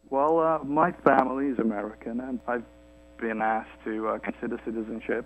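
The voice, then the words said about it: British accent. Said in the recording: “You sound British. ... Well, I am British.”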